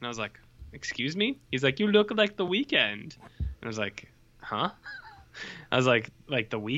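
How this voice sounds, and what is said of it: Usual voice. Nothing is said of it.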